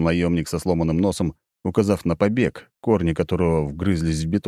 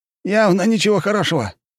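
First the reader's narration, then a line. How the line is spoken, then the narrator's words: Squeaky. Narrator (Russian): пискнул боец с оттопыренными ушами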